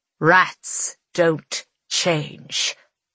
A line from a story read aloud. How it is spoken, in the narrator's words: Annabelle snarls